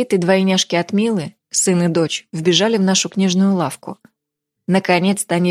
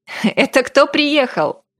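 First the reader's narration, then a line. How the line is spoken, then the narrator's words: Laughing. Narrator (Russian): Рассмеялся я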